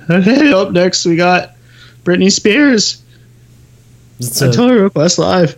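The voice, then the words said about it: Carson Daly impression. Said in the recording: “pretty good Carson Daly impression”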